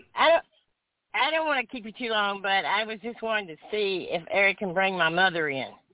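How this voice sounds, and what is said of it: Distinctive regional accent. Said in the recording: “I recognize her accent ... who have the exact same accent”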